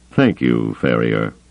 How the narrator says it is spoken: Thrawn said dryly

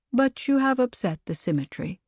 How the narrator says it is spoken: the Paragon responded, her tone flat

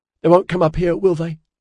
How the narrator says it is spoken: Orion asked in a pitiful voice

